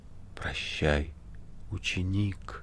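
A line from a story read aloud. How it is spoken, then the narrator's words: Barely audible. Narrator (Russian): чуть слышно сказал мастер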